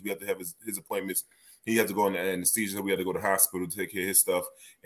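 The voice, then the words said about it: Worn-out, partly lost voice. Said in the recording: “My voice is kind of gone”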